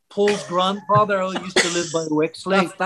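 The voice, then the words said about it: Put-on Liverpool accent, mouth barely open. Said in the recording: “That's a good Liverpoolian accent... the accent's a little more industrial. You don't open your mouth too much”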